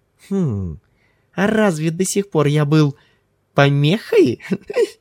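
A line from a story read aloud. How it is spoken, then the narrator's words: Boyish giggling question. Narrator (Russian): спросил Ким, по-мальчишески хихикнув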